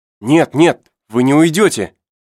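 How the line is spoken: Shouting. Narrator (Russian): Герберт закричал

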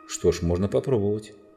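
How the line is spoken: Plain. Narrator (Russian): ответил Питер

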